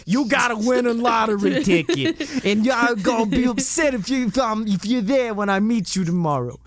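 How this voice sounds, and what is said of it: Exaggerated Boston accent. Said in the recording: “having the most excessive Boston accent you've ever heard”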